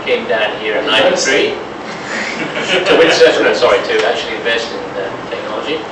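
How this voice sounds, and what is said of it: Non-Australian foreign accent. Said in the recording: “As you can probably gather from my accent, I'm not originally from Australia.”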